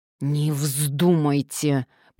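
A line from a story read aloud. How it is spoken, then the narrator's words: Man hissing through teeth. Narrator (Russian): прошипел мужчина сквозь зубы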